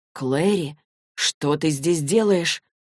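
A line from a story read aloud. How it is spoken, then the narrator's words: Muffled. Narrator (Russian): Она глухо проговорила, уткнувшись ему в рубашку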